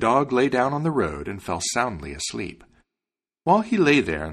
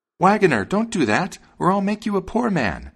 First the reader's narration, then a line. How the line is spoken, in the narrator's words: the sparrow cried out